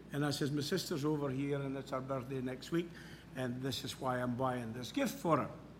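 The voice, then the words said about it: Scottish accent. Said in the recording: “she said she loved my accent. I said, well, I'm from Scotland.”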